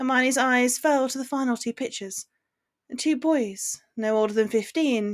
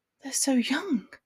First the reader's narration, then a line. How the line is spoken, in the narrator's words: she mumbled